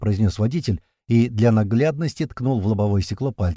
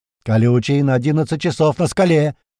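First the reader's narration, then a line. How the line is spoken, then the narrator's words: Yelling. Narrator (Russian): заорал Туман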